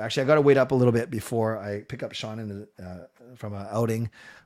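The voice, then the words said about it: Voice giving out, worn. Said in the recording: “I can tell my voice is going.”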